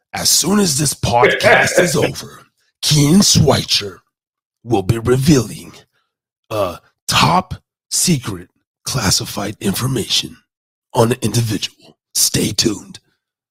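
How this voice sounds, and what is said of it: Dramatic announcer-style voice. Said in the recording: “go into my dramatic voice”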